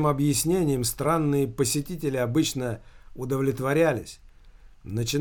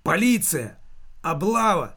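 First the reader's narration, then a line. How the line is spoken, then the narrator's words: Shouted. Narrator (Russian): прокричала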